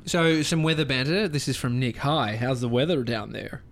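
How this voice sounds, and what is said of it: Poor put-on American accent. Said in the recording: “Is that your American accent? ... Yeah, it's ... shit. ... Would not quit your day.”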